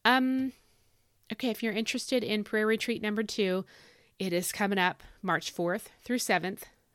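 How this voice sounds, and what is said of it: Scratchy, sore voice. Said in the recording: “I'm not going to say losing my voice. I don't want to lose my voice... it is scratchy and sore”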